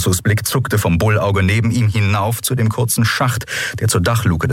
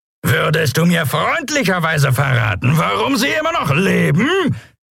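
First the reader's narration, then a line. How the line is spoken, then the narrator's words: Roaring over the wind. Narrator (German): brüllte er gegen das Tosen des Windes und das Lärmen der Schubdüsen an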